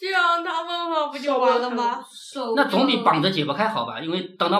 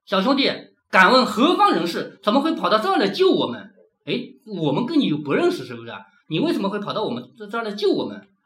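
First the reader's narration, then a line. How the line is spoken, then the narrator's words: Plain question. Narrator (Chinese): 他这么一问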